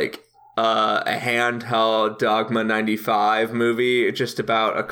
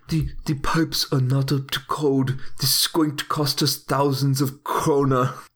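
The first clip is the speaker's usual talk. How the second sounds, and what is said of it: German accent, Werner Herzog impression. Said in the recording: “he got a good German accent... You can do Herzog”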